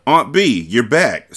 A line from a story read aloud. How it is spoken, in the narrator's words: CJ exclaimed